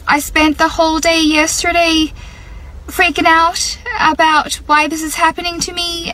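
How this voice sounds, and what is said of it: Irish accent. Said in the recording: “speaking with a completely different accent. She didn't sound like herself ... usually she has an Australian accent ... I woke up with an Irish accent”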